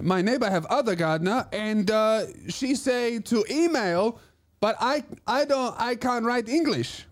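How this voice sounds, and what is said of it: Put-on foreign accent. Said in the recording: “do the accent for that story ... I was fucking nailing it. That's exactly how she sounded.”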